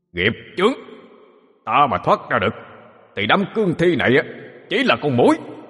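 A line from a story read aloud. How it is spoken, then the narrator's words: Shouting. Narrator (Vietnamese): Âm tướng kia quát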